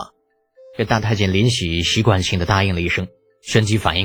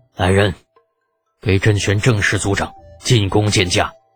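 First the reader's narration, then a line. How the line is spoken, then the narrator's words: Through gritted teeth. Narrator (Chinese): 咬咬牙道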